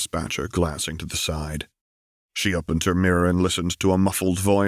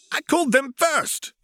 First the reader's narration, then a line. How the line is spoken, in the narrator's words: exclaimed Tom angrily